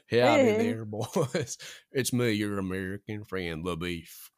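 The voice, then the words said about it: Put-on Texan American accent. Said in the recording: “put on an accent ... my accent was Texas. American.”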